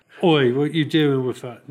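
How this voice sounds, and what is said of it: Put-on Cockney accent. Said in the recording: “more excuses for Cockney accents here.”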